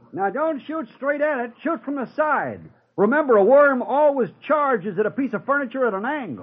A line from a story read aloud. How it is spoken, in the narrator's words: Shouted Wilson